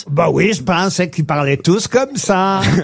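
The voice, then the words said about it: Exaggerated Swiss French accent. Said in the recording (French): “Il est excellent, cet accent.”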